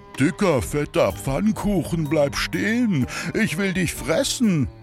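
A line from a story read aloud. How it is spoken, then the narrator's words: Calling out, horse. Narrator (German): ein Pferd rief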